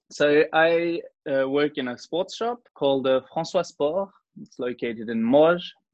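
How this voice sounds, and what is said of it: New Zealand-influenced English accent. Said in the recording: “I speak English thanks to a New Zealand mother ... Hence your accent.”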